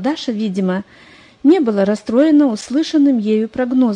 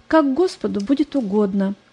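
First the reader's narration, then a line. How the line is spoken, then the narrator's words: Calm. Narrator (Russian): Она спокойно сказала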